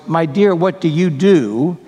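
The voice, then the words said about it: Condescending voice. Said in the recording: “in a rather condescending voice,”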